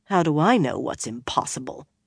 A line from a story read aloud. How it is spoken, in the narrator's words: Nynaeve muttered